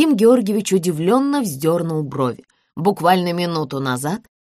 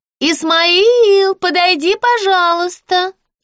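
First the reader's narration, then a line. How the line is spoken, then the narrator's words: Thin sing-song over speaking tube. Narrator (Russian): пропела она тонким голоском в переговорную трубку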